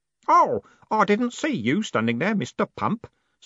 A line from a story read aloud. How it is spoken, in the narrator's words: said Stanley cheerfully